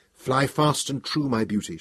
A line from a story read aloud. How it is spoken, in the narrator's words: she would whisper